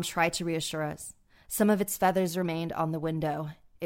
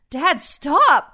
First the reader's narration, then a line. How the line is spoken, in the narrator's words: I pleaded with him